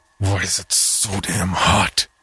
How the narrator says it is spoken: Vinnie growled, his throat burning as much as his neck

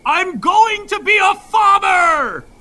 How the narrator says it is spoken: a coyote howls, he's howling

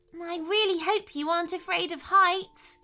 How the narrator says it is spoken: gasped Tara

